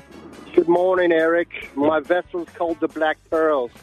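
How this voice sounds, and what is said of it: Put-on Australian accent. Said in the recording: “What's your accent? Are you Australian? ... doing an Australian bit.”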